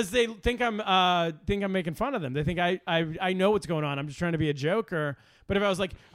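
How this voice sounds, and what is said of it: Usual voice. Nothing is said of it.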